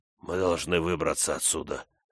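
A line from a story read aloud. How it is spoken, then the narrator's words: Hoarse, hungover-sounding voice. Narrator (Russian): сказал хриплым, точно с перепоя, голосом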